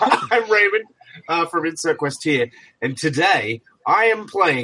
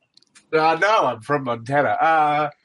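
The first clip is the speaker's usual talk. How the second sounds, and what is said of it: Thick put-on Australian accent. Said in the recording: “land down under ... has a thick Australian accent”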